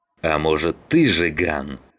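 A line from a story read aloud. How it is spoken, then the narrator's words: Growling. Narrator (Russian): зарычал Саныч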